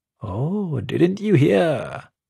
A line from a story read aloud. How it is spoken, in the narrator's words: Janno says, chuckling